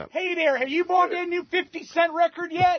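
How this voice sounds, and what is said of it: Put-on Baltimore accent. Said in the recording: “just a black guy ... Who talks with a Baltimore accent.”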